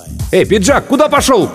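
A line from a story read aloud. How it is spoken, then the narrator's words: Shout from behind. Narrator (Russian): кто-то крикнул в спину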